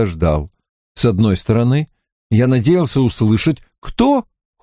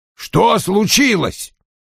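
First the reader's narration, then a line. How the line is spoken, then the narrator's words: Irritated, called after. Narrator (Russian): раздраженно бросил Вульф мне вслед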